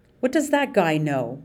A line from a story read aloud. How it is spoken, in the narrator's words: March sputtered